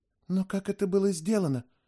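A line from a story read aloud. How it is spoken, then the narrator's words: Whisper. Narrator (Russian): прошептала Доркас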